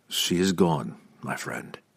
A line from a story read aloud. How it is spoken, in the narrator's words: Drizzt said softly